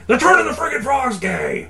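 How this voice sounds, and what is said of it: Alex Jones impression. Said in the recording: “I'm going to go Alex Jones here for you ... impression of him”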